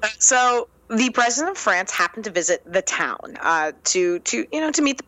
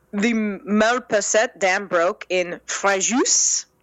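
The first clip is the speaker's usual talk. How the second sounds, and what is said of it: Ridiculous put-on French accent. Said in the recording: “breaking out a ridiculous French accent.”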